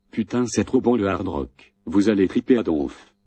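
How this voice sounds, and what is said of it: Put-on Canadian French accent. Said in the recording (French): “Je prends l'accent canadien, vous avez remarqué.”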